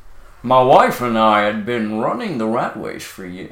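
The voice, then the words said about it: Put-on American accent. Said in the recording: “I'll do the American voice.”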